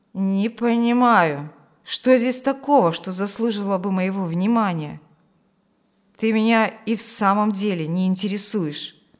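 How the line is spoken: Gloomy pronouncement. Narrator (Russian): мрачно изречь

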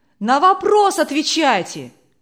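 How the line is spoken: Shouts from the audience. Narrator (Russian): кричали из публики

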